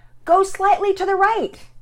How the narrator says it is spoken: somewhat raising her voice, she directed

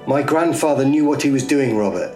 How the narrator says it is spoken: yelled back angrily, her face reddening

